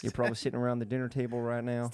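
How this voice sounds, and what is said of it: Poor Joe Biden impression. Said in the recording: “That's your Joe Biden accent. ... Stick to your day job. ... What the fuck is that accent?”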